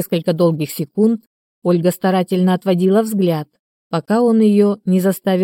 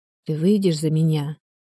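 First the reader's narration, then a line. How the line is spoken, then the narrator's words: Whisper. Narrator (Russian): Тихон прошептал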